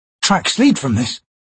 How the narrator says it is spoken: Tok said shakily

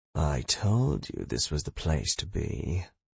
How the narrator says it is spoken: Hans purred

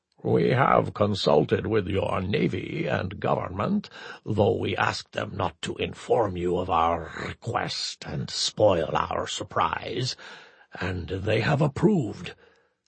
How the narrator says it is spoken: allowed a very small flicker of amusement to flaw his solemnity, as he added softly

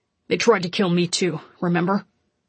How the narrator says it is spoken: Konstantin snapped

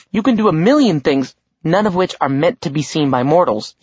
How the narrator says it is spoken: she said bitterly

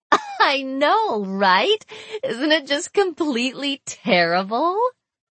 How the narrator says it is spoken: In the midst of her cackling, she burst out

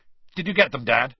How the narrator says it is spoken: said Bill, sharply

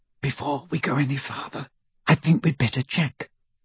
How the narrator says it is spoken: whispered Hermione

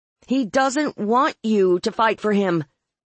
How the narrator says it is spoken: I yelled to be heard over the racket

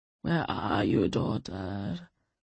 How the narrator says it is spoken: the king asked very softly

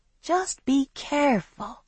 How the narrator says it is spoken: he said quietly

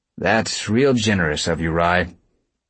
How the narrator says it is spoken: Owen said dryly

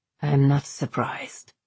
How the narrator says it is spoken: Cullen said quietly

